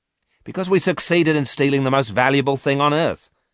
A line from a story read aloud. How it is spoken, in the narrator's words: Miranda said quickly